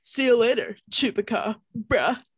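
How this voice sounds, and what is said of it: Frat boy impression voice. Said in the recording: “That was my frat boy. ... impression.”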